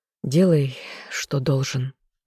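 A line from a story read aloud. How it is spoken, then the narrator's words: Sigh. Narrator (Russian): вздохнул он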